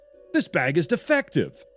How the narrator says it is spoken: I yelled

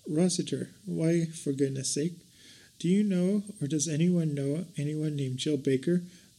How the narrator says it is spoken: Vicki asked

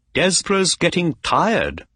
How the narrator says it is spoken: Holmes said

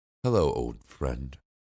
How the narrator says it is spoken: she said

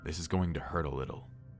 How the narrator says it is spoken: the doctor muttered

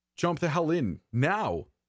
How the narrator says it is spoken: he shouted

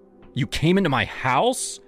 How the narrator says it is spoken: I snapped

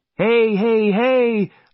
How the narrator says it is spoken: I shouted

